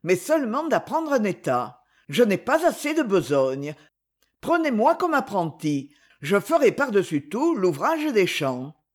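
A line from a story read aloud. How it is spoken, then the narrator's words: Fairly calm. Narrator (French): dit Luc assez calmement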